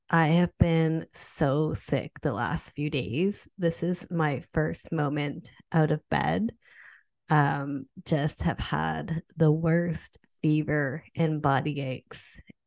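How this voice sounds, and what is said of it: Sick-sounding voice. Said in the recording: “this sick edition ... I am your sick host ... sorry about my voice.”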